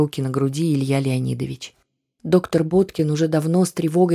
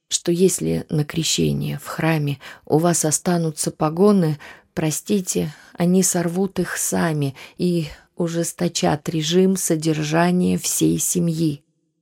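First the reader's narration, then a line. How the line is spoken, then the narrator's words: Sighing. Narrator (Russian): вздохнул Татищев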